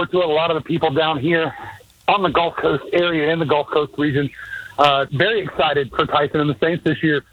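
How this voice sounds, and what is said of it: Out of breath while talking. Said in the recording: “Why are you so out of breath?”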